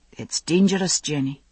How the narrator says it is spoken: he said quietly

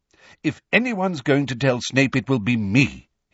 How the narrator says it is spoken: he said firmly

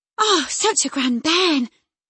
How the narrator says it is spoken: she panted out

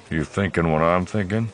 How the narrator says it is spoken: He muttered

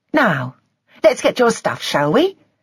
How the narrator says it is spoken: She said brightly

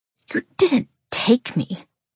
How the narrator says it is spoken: I hiss so only he can hear

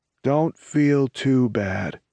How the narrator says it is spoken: Angelo drawls

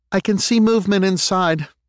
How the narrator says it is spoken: she called out

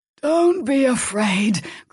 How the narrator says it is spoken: Cronus rasped

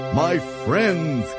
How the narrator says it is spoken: cried the elephant

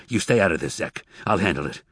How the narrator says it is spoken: Tobias said harshly

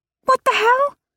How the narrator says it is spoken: Annabelle spluttered on her drink

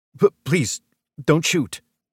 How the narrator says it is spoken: Simon stammered

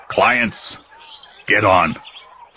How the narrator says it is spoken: the forger said gruffly, smirking

